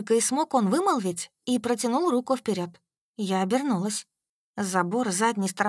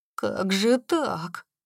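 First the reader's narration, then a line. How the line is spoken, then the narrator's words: Muttered. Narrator (Russian): пробормотал он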